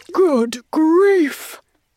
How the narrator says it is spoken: he spluttered

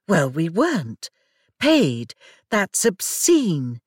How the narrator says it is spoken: exclaimed

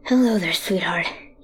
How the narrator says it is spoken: whispers, out of breath

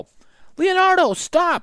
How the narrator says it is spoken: shouted Annie

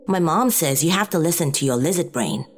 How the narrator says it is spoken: Lorelei answered

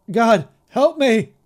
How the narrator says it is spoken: my father cried down to us

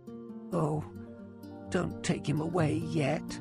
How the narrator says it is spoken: moaned

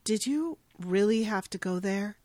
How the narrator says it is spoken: asking him softly and sternly

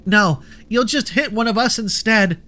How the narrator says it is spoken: Luna screamed as she was still being flung about

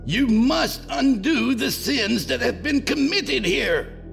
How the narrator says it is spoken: he begged

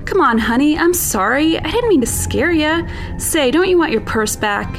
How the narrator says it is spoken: He would shout

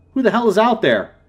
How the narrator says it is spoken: Darren's voice called out

